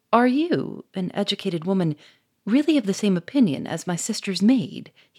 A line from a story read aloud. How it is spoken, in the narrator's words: he exclaimed